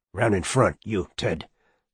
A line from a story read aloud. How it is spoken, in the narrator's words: the man with the gun whispered